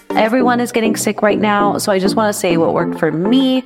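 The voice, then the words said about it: Slightly off, sick-sounding voice. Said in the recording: “my voice is a little off today because I caught some kind of virus”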